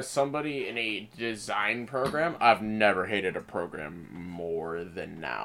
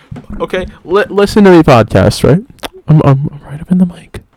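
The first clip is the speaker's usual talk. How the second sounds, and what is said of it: Whispering close to the mic. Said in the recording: “I'm whispering so I don't peek the mic.”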